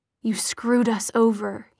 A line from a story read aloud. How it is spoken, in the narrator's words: he murmured